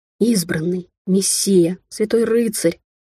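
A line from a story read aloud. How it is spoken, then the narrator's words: Reverent crowd whispering. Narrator (Russian): благоговейно зашептали вокруг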